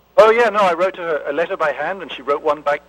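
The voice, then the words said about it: Speaks with a noticeable accent. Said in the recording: “Love your accent.”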